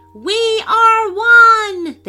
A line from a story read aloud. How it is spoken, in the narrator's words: they shouted all together in unison